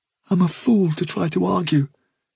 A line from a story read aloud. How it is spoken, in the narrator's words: said miserably